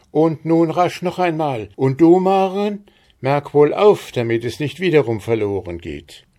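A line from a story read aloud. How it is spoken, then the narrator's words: Calling out. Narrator (German): rief Frau Stine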